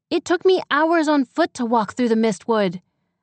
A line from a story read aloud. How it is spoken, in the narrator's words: Ekon shouted behind her